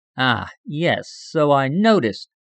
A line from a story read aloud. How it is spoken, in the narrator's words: remarked dryly